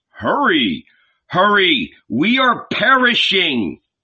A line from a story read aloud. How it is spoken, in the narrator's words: All were shouting to him